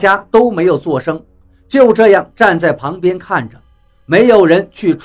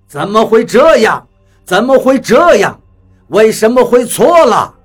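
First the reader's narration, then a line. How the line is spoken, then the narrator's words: Angry roar. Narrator (Chinese): 他似乎十分的恼怒，吼道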